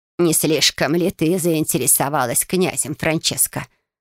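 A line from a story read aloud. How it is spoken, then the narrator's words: Creaky older woman. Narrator (Russian): проскрипела тетушка Виола, еще одна старшая сестра мамы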